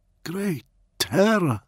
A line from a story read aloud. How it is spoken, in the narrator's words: Shear breathed